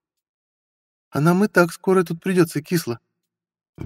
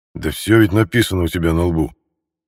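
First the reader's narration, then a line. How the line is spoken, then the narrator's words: Grumbling. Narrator (Russian): Буркнул Михаил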